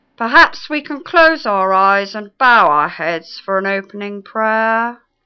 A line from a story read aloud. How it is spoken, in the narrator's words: intoned